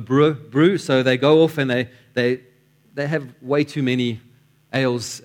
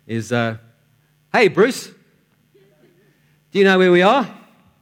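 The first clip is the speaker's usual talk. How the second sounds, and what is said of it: Put-on Australian accent. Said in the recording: “I'm going to try my best Australian accent.”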